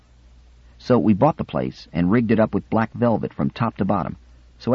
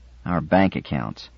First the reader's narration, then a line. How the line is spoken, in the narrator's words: grunted the lanky, pipe-stem-limbed Yimo 70